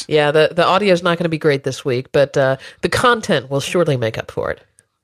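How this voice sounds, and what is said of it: Congested, sick-sounding voice. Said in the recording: “you've got a little bit of a cold. I can hear it in your voice.”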